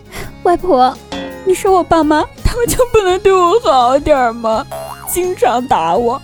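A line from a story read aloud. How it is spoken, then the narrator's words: Child sobbing. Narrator (Chinese): 他难过的哭着，哭兮兮的问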